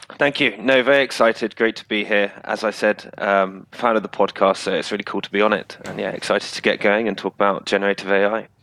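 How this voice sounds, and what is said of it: British accent. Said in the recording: “you have a decidedly British accent”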